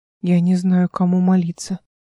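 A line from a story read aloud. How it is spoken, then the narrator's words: Sad. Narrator (Russian): печально сказал Жеймир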